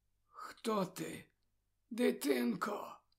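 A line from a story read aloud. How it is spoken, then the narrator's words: Hoarse dying father's voice. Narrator (Ukrainian): спитав батько своїм хриплим передсмертним голосом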